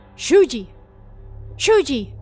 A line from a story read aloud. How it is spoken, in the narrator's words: father shook him and called out his name